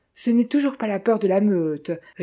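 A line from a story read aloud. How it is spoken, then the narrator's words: Sneering laugh. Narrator (French): ricana-t-il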